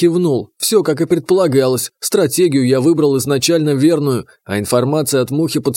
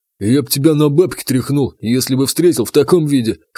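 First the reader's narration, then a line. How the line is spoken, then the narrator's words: Smirking snort. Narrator (Russian): хмыкнул Рябой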